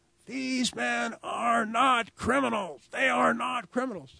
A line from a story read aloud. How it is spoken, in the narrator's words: screaming